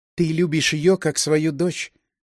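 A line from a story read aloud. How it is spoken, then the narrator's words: Young woman, calm, flat. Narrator (Russian): спокойно и ничуть не вопросительно сказала девушка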